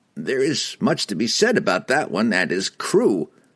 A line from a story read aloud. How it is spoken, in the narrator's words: Dandan chuckled